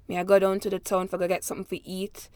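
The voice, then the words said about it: Deeper Jamaican Creole accent. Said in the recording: “my dad's from urban Jamaica, so he has a deeper accent, whereas his Jamaican Creole would be like”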